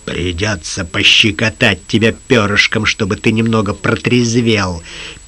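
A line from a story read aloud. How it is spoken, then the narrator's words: Hissing. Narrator (Russian): прошипел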